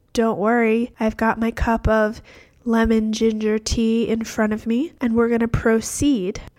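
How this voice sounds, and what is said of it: Congested voice from a cold. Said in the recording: “You may notice that I have a cold today.”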